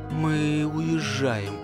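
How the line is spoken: Quiet. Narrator (Russian): тихо поведала

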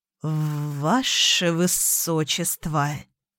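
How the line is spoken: Treasurer hissing, feigned humility. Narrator (Russian): В притворном смирении зашипел казначей

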